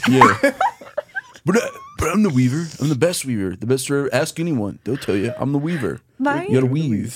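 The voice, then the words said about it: Donald Trump impression. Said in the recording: “best Trump impression ever”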